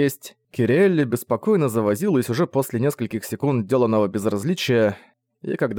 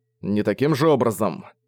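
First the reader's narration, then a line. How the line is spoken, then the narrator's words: Grumble, restrained irritation. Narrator (Russian): проворчал он, сдерживая раздражение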